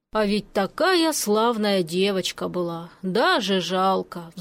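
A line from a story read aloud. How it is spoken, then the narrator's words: Sighing neighbor. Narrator (Russian): вздохнул сосед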